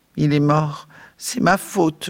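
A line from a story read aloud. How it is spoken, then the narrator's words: Moaning. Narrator (French): gémit Beth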